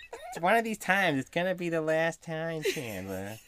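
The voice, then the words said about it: Janice impression, nasal Fran Drescher-like. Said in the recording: “Do you have a good Janice impression? ... she talks like this ... It's just sort of like a bad Fran Drescher.”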